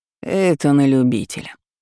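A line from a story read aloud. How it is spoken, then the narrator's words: Grumble. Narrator (Russian): буркнул колдун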